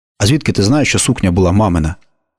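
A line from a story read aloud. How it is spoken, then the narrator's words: Plain. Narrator (Ukrainian): запитав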